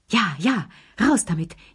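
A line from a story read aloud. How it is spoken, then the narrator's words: Gasping old voices. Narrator (German): japsten die drei Alten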